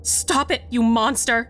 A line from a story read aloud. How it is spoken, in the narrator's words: I shouted back